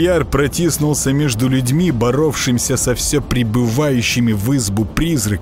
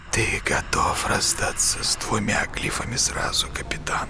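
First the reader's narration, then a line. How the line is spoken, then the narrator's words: Hissing. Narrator (Russian): прошипел тот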